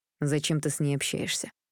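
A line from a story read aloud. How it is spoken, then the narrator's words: Angry question. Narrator (Russian): злобно спросил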